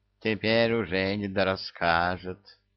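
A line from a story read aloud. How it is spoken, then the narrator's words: Sigh. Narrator (Russian): Вздохнул Мурзик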